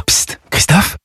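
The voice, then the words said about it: Whispering. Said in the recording (French): “pourquoi chuchotez-vous?”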